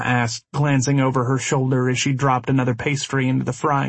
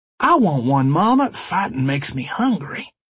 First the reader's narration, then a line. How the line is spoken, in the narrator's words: Dallas drawled